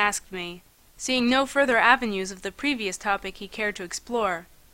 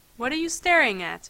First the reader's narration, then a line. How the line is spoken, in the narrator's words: he asked evenly